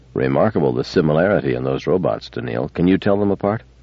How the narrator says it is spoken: Controlling his voice, he said calmly to Daniil

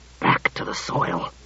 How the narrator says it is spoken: said Klusar in a stifled voice

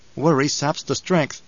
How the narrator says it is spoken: Paul murmured

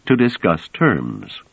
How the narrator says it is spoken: said Trevise calmly

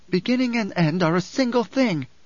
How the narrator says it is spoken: Alia snapped

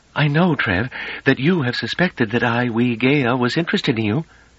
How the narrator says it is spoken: said calmly

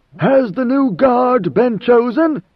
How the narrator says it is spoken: In a stentorian voice, Leto asked

